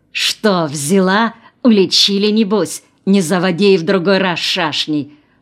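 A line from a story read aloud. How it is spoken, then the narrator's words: Spiteful hiss. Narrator (Russian): прошипела опять Мегера над духом Аси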